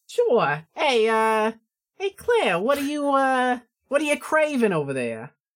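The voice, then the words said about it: Character voice with Brooklyn accent. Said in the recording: “do my Miss Occult voice ... I feel like you kind of broke Brooklyn for a second ... I did break a little Brooklyn”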